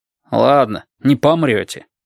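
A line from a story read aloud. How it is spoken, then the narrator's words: Grumbling. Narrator (Russian): проворчал Деркнап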